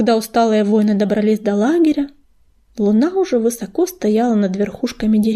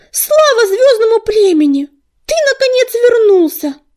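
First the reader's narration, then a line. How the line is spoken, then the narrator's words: Shout. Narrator (Russian): закричал он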